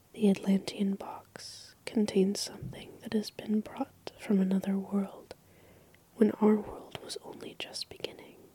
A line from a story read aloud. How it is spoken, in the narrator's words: he almost whispered as he said